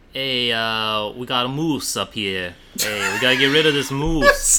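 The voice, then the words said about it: Put-on Minnesota accent with Brooklyn. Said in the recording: “What is your Fargo, North Dakota accent? Slash Minnesota slash Wisconsin. ... It's a person from Brooklyn who moved to Minnesota.”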